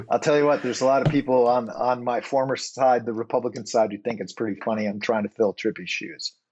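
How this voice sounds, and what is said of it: Midwestern American accent. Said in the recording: “the Midwestern accent quotient on this show today is going to be infinity”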